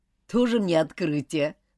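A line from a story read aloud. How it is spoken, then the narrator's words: Scoffing snort. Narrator (Russian): хмыкнул Роберт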